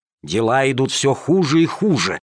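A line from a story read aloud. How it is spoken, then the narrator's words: Angry hiss. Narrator (Russian): шипели, позеленев от злости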